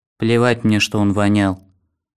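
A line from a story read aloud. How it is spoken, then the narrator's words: Mumbled in sleep. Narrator (Russian): пробормотала во сне лежавшая рядом девушка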